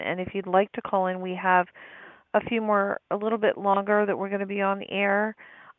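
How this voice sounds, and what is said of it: Voice cutting in and out. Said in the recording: “my voice is going in and out ... the air is kind of like a little smoky”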